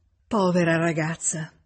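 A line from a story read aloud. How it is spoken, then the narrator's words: Exclaimed again. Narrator (Italian): esclamò nuovamente Emma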